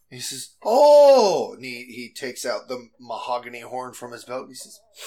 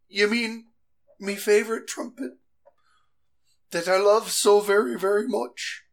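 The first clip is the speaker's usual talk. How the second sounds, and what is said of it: Goblin character in Jamaican-style accent. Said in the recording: “this is not a Jamaican accent, yet it's supposedly a goblin”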